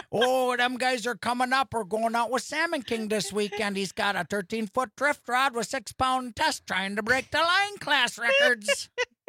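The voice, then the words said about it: South Side Milwaukee accent. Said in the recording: “that's a Milwaukee accent... Like a South Side Milwaukee accent”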